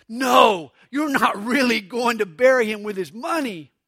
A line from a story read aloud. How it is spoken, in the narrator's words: Her friend gasped